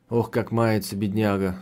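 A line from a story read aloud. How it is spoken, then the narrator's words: Sighing. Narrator (Russian): вздохнула она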